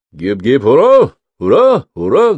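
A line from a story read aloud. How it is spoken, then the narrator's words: Officers bellowing cheer. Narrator (Russian): гаркнули офицеры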